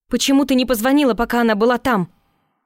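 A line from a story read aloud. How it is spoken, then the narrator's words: Uncontrolled yell. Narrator (Russian): Заорала я, не сдержавшись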